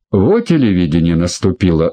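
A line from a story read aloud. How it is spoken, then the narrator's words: Snorting, amused. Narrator (Russian): хмыкнул Евлентьев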